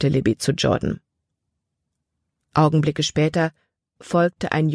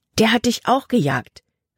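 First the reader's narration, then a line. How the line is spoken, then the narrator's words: Exclaiming. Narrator (German): rief Libby aus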